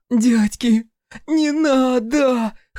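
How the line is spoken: Hoarse desperate plea. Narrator (Russian): хрипела снизу Нинка, когда на нее залез Химерик

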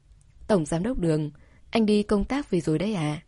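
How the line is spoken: Calm, smiling. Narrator (Vietnamese): Cô bình tĩnh mỉm cười nói

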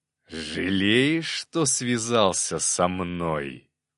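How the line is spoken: Growl. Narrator (Russian): прорычал князь

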